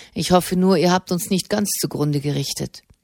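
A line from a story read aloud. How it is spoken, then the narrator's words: Dry reply. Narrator (German): erwiderte Alessandro Dell'Antella trocken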